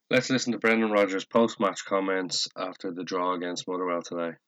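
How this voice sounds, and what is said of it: Rough, unsteady voice. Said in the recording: “my voice is a little bit all over the place today”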